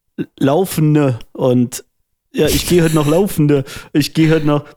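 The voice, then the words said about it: Put-on dialect twisting word endings. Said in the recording (German): “was ist das für ein Akzent ähm, oder für, für ein Dialekt, wo man das EN am Ende verdreht? ... Das ist nicht so offensichtlich, wie ich es gerade gemacht habe”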